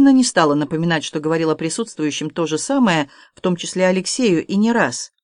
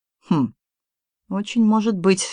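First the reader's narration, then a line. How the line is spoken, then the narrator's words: Confused mutter. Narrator (Russian): растерянно пробормотал Серж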